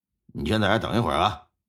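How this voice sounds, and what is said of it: Quiet, hushed voice. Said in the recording (Chinese): “小声的说道”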